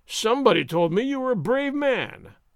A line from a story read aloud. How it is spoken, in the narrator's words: Gonzalez taunted